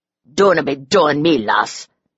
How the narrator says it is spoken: he growled, his burr thickening

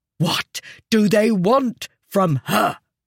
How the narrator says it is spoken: He said, his voice shaking with fury

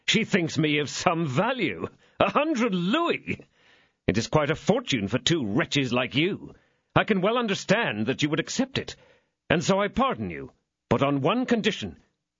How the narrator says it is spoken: said the young man, laughing

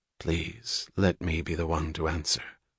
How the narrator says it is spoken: Francisco said quietly

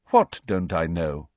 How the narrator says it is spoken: asked Dumbledore calmly

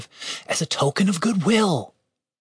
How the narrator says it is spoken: Julian whispered to Dave

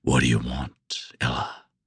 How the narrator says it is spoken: I growled

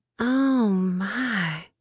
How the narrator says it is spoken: she whispered

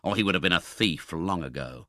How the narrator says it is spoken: muttered the man

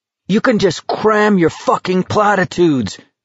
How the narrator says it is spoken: Garrity shouted

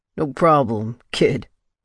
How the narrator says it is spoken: he said, his voice thick with a laugh I could tell he was trying to hold back

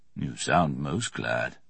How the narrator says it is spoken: Merriman said dryly

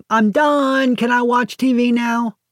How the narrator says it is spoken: the architect shouting into the next room

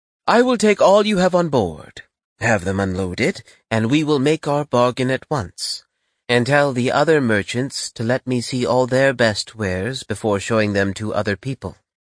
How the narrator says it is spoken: As soon as he mentioned olives, the princess, who was very partial to them, exclaimed

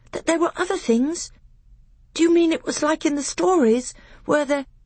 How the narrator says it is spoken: gasped

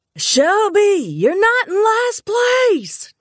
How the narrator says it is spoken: Jefferson hollered

